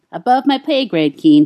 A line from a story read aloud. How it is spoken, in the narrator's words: he answered, and then had to laugh at himself for his irritation